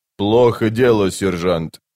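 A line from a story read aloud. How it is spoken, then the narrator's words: Plain. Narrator (Russian): сказал Бен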